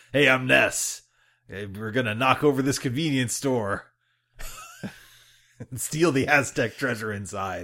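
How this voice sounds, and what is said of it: Imitates another person's voice. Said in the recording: “That's a great Nolan North impression.”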